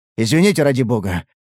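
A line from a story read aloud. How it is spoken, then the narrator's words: Convulsive gasp. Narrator (Russian): Судорожно выдохнул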